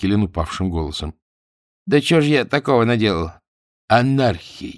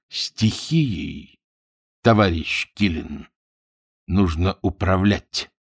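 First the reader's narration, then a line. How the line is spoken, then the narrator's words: Crisp, clipped delivery. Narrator (Russian): отчеканил Борисов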